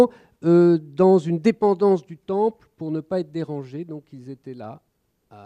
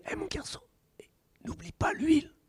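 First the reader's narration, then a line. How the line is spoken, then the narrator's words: Murmuring. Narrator (French): ne peut pas s'empêcher de murmurer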